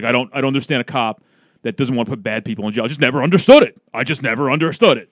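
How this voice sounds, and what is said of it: Imitates another person's voice. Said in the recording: “I'll do his voice ... my Tom Rizzo impression.”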